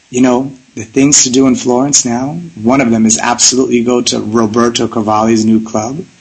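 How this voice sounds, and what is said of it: Raspy voice. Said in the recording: “you're going to get my raspy voice”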